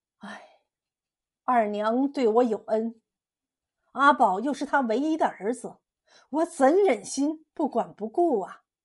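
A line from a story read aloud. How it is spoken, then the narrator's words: Frank. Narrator (Chinese): 李一清直言道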